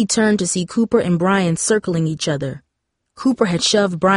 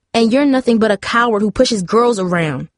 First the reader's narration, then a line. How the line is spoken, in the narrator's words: snapped back